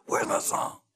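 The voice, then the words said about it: Imitation of Miles Davis. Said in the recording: “That's a good imitation of Miles. ... Exactly like him.”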